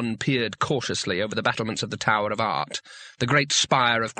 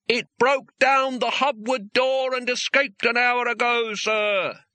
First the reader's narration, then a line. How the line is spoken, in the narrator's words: yelled